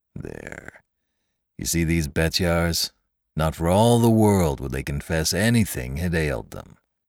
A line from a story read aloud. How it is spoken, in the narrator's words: The old man ... muttered, half pleased, half vexed